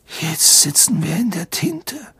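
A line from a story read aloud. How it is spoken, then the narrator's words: Hoarse. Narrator (German): sagte er heiser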